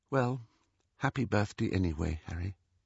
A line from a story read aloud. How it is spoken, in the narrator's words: Ginny said in a flat little voice